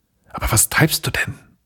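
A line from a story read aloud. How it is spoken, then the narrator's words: Sudden whisper from behind. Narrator (German): Da flüsterte es plötzlich hinter ihm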